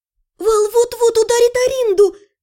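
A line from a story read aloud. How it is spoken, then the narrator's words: Squeak. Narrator (Russian): Пискнула я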